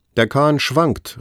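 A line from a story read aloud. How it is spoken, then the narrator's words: Old man calling out. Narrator (German): rief der Alte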